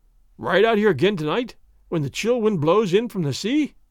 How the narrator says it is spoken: gasped Don Diego

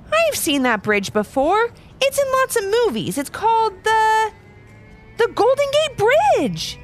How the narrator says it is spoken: Levi shouted

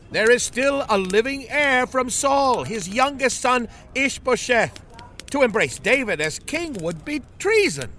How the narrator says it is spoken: another elder shouted

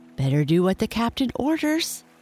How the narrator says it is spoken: said Starkey nervously

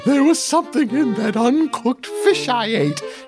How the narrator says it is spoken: whined through the tinny, battery-powered speaker

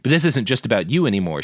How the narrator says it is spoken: she said

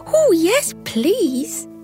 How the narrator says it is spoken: squealed

